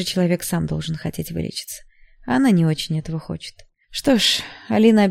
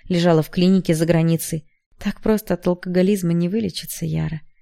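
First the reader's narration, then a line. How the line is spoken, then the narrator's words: Mother's sigh. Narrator (Russian): вздохнула мама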